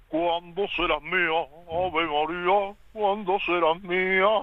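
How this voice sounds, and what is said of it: Sung in a Batman-style voice. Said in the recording (Spanish): “¿Sabes poner la voz de Batman? ... inténtalo, pero cantando Ave María de David Bisbal ... ese vibrato final”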